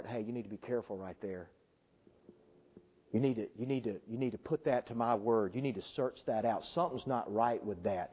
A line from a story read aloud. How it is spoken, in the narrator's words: whisper in your heart